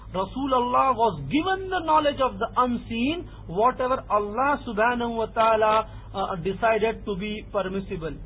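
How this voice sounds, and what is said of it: Indian accent. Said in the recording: “my English is bad, my Indian accent is bad”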